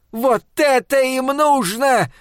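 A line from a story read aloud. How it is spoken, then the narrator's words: Yelled in reply. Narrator (Russian): завопила она в ответ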